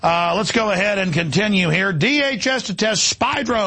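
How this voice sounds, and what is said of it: Usual voice. Nothing is said of it.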